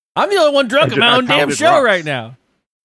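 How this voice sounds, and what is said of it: Yelling. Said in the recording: “I'm sorry, I'm yelling.”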